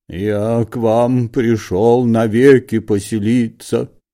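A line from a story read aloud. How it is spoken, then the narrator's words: Lowing, cow-like voice. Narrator (Russian): повторил Лоханкин коровьим голосом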